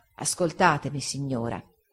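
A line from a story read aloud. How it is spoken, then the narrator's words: Quiet calm reply. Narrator (Italian): egli rispose, piano e calmo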